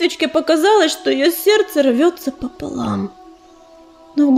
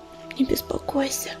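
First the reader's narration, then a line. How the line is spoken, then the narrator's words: Whisper. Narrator (Russian): прошептала она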